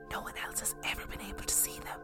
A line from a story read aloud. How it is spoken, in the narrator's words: whispered